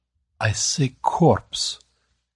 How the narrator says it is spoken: Grecian's voice dropped to a whisper

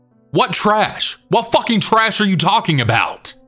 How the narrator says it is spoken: John then proceeds to yell

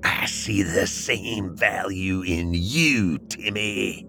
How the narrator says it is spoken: hissed

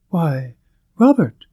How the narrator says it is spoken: she suddenly exclaimed

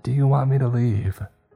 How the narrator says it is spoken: asked

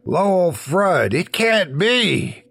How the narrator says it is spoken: exclaimed

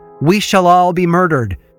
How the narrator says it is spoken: Bridget shout from the tap room

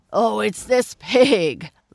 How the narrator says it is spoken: laughed the farmer

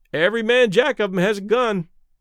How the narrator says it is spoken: one of the sailors remarked cheerfully

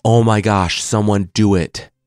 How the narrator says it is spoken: Shere Khan roared

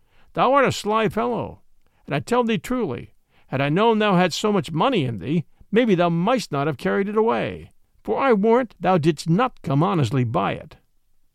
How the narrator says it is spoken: quoth Robin, laughing

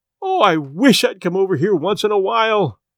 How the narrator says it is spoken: she cried

